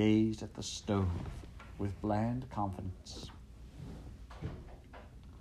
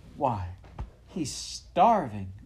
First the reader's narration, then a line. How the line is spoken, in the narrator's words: she exclaimed in horror